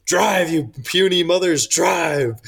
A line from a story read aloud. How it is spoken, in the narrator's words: he's yelling